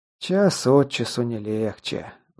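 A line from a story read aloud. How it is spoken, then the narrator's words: Sighing. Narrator (Russian): вздохнул Скелл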